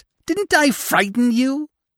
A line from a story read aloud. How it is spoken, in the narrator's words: the screech owl asked